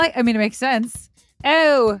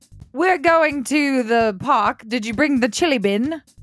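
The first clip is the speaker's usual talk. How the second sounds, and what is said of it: Poor imitation of New Zealand accent. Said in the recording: “how do you speak when you're in New Zealand? Kind of like Australian, I think ... That was poor ... I apologize for that terrible impression.”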